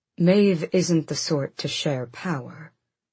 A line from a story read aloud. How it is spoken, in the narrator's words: Gabriel cut in calmly